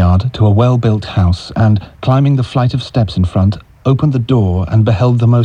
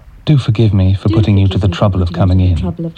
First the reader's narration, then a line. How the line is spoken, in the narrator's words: she said